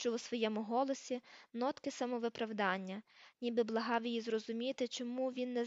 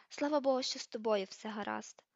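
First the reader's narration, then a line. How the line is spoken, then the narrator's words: Relieved sigh. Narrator (Ukrainian): зітхнула вона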